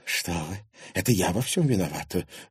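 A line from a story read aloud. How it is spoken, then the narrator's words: Breathless exhale. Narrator (Russian): выдохнула Алена Александровна Сухорукова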